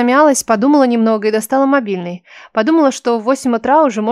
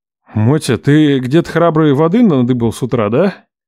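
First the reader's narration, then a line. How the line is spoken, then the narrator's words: Menacing question. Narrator (Russian): грозно поинтересовался Лев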